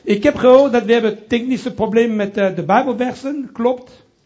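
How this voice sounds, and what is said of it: Strong French accent in Dutch. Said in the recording (Dutch): “ik heb een Franse accent in mijn Nederlands ... mijn accent blijft nog steeds ... Je hebt een hele sterke Frans accent wanneer je spreekt Nederlands”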